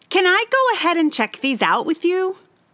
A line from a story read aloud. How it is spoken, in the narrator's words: called out